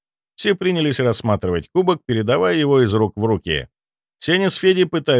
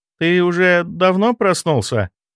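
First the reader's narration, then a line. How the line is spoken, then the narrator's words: Sleepy question. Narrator (Russian): спросила Лена, сонно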